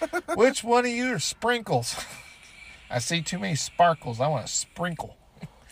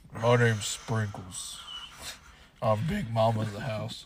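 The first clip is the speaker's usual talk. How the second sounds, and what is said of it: Deep-voiced character voice. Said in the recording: “Deep voice.”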